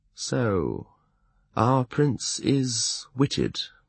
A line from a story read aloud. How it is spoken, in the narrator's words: he said slowly